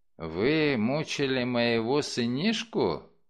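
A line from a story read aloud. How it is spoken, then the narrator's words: Sleepy voice, butcher. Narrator (Russian): спросил мясник заспанным голосом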